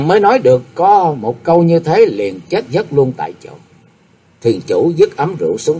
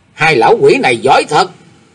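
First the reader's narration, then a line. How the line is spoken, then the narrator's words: Shouting. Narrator (Vietnamese): Liền quát bảo rằng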